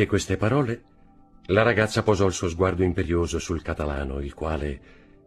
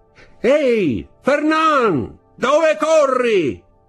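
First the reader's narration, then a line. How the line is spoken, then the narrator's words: Shouted. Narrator (Italian): gridò una voce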